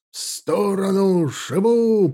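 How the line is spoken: Roaring. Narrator (Russian): проревел капитан

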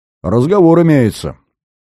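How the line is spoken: Rude reply. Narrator (Russian): грубо ответил Зверев

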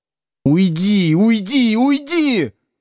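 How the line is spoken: Sudden scream. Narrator (Russian): Вдруг закричала Лена

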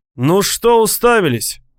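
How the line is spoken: Shout. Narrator (Russian): крикнул он

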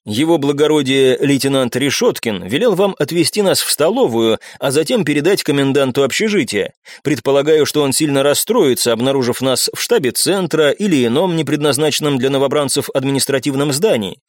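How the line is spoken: Plain. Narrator (Russian): сказал я

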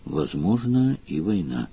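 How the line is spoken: Quiet speech. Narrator (Russian): Леверлин сказал тихо

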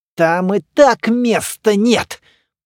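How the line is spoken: Hissed. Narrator (Russian): прошипел Слоповский

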